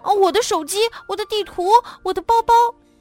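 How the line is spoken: Shouting. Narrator (Chinese): 杰克大叫着

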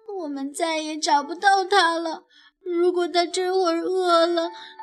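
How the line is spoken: Sobbing softly. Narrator (Chinese): 丽娜轻轻地抽泣着

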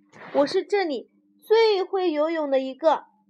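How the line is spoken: Eager, loud. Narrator (Chinese): 弗洛格热心的大声说道

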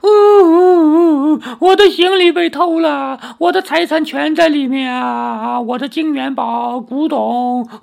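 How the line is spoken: Rich merchant crying. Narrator (Chinese): 那富商哭着说

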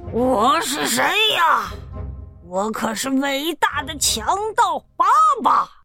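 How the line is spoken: Loud boastful roar. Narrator (Chinese): 他大声的吼道

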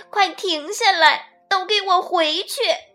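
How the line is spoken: Drowned out by noise. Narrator (Chinese): 她的声音很快就淹没在了汪汪的狗叫声、呼噜呼噜的喘息声，还有咚咚的敲击声中了

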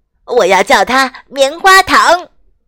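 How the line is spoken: Happy shout. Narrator (Chinese): 雪宝高兴地冲艾莎喊道

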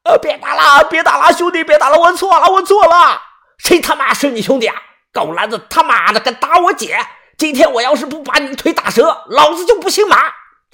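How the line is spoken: Shouting. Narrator (Chinese): 那个男的大喊道

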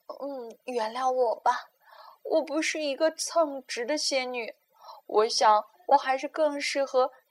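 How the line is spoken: Helpless apologetic sigh. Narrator (Chinese): 仙女无奈的叹了口气，抱歉的说

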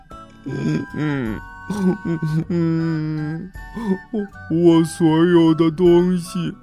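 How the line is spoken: Little pig crying. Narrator (Chinese): 小猪哭着说

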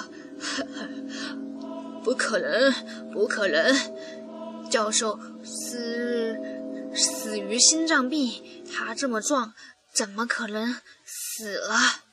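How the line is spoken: Odd tone, self-mocking laugh. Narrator (Chinese): 连他自己都觉得语调有点奇怪，自嘲的笑了笑

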